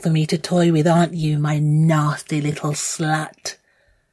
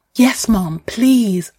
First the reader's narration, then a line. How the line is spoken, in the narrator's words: I gasp